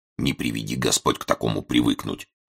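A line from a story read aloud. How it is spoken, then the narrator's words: Low grumble, old policeman. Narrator (Russian): в полголоса пробурчал старший городовой Приблудько, служака старый и опытный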